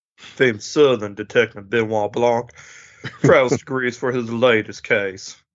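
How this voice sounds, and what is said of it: Put-on Southern accent. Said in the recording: “it's my best. ... It's pretty good. Southern accent. ... Yeah, pretty good.”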